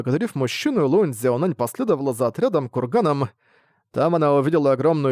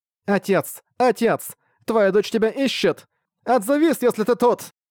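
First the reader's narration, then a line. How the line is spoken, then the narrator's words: Repeated shouting. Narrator (Russian): Лун Цзяонань кричала раз за разом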